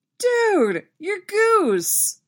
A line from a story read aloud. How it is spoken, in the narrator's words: Steve exclaims from somewhere behind him